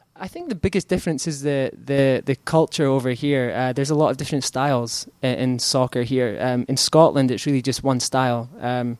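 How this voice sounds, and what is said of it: Scottish accent. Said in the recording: “It sounds better in your accent.”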